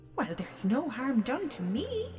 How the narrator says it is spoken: she said cheerfully

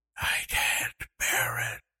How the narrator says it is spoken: she whispered

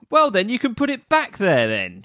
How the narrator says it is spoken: shouted Molly

